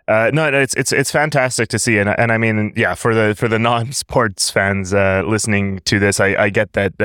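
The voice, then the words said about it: Pseudo-American accent. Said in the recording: “my pseudo-American accent”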